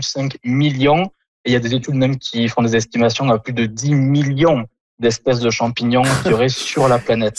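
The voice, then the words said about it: Southern French accent. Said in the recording (French): “votre accent du sud de la France”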